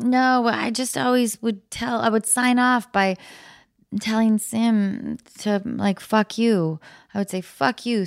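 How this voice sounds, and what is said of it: Australian accent. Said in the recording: “in an Australian accent”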